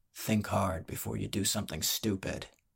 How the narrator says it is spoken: the brawler whispered

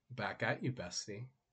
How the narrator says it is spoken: the shadow chuckled

